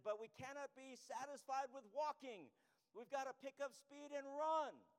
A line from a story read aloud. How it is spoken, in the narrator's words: the preacher raised his voice a little and added